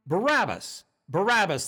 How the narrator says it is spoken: they called out

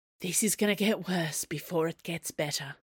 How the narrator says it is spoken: she muttered to Athos

